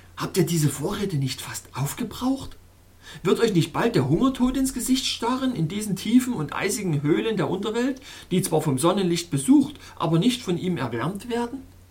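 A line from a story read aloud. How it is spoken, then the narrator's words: Shouted. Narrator (German): rief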